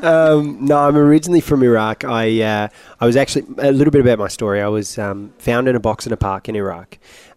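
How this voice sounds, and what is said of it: British accent. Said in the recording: “you sound British”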